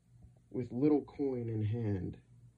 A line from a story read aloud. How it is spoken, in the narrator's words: he cries